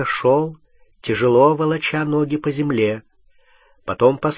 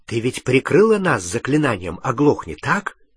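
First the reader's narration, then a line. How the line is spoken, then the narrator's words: Whisper. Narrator (Russian): прошептал он Гермионе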